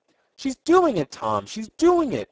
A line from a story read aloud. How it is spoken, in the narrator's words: cried Ned exultingly